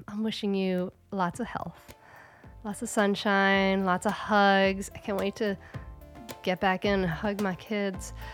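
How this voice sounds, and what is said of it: Voice sounds ill, recovering. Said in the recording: “You can probably hear in my voice, I've been recovering from the big C.”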